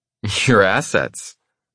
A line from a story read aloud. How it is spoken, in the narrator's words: she scoffs